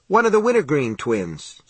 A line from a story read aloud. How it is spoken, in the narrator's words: Johnny said cheerfully